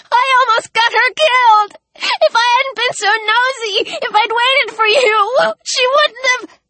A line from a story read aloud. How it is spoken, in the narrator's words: bawled